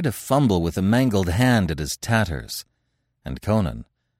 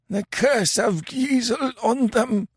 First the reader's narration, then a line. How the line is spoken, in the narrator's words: gasped Kemsa